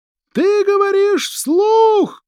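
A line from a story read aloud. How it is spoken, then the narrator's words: Shouting. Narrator (Russian): крикнул Уистер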